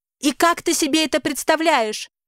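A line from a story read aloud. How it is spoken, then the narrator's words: Almost shrieking. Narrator (Russian): Чуть ли не взвизгиваю я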